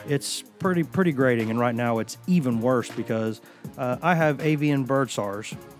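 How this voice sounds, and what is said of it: Hoarse, grating voice from a cold. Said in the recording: “I have a little bit of a cold, so I'm going to apologize for my voice being worse than it normally is, which is usually pretty bad. ... It's pretty grating”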